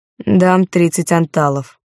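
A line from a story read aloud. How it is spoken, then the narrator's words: Dry. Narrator (Russian): сообщил сухо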